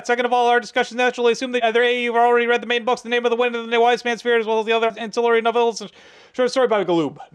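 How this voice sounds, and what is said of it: Very fast rushed speech. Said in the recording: “read your part very, very fast ... my Micro Machines Man impersonation is lacking”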